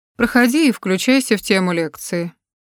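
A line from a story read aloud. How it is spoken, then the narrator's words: Dry, unruffled woman's voice. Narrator (Russian): сухим, но нисколько невозмущенным голосом проговаривает женщина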